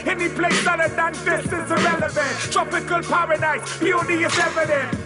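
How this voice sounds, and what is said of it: Smooth Bahamian accent. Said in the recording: “Bahamian accent, smooth and so elegant”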